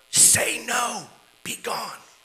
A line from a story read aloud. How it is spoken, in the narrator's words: The director whispered from the side of the stage